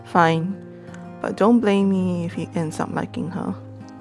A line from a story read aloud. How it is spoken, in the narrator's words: Beth sighed and said